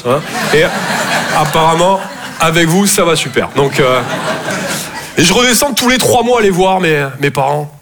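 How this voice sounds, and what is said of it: Toulouse southern French accent. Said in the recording (French): “Je viens de Toulouse à la base. Ouais, ça s'entend un peu”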